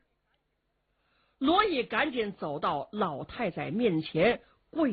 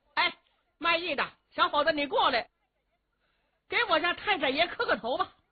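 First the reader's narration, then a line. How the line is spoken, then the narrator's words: Calling out. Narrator (Chinese): 秦福就冲着罗艺喊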